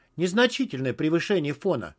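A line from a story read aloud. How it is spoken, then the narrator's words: Calm. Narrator (Russian): спокойно сказала Лара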